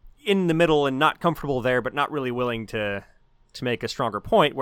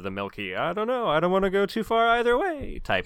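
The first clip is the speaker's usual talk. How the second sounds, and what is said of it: Yogi Bear cartoon voice. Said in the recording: “I don't know why I did a Yogi Bear voice for that.”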